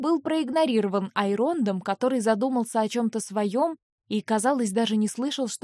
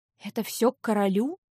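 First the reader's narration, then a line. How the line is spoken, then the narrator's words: Whispered question. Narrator (Russian): шепотом спросила я у Эйронда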